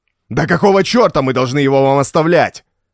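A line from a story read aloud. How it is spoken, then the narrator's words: Yelling. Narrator (Russian): завопил Роберто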